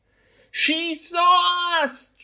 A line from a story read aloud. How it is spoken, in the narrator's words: Joy yells